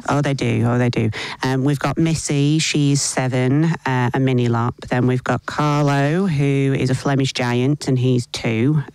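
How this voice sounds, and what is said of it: English accent. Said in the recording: “listeners may detect an accent there from you. You originally grew up in Blackpool in England?”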